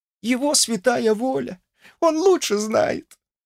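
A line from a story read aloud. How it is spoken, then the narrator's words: Sobbing washerwoman. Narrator (Russian): ответила прачка, и губы ее снова запрыгали от рыданий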